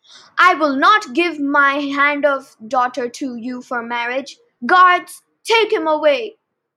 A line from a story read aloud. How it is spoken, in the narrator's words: screamed Hades